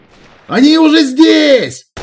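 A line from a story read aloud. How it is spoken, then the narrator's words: Frantic scream. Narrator (Russian): истошно завопил я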